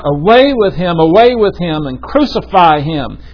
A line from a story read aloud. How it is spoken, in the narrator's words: They therefore cried out